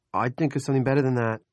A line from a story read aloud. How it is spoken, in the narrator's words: he said